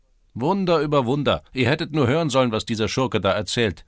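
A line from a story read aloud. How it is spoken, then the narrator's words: Called out. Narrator (German): rief einer von ihnen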